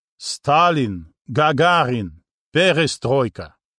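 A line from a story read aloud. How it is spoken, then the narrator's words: Hoarse old man's laugh. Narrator (Russian): дед хрипло рассмеялся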